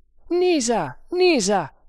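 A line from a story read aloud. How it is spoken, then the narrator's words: Shouting. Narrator (Italian): gridò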